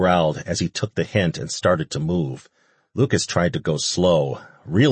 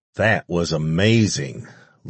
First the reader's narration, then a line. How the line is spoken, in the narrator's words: Lucas said on a contented sigh